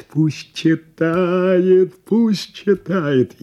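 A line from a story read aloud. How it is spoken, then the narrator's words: Shout from the audience. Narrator (Russian): из зала крикнули бы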